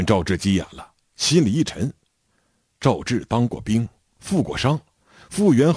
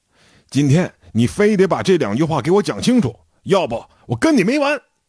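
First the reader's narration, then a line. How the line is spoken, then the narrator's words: Shouting. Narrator (Chinese): 赵志喊道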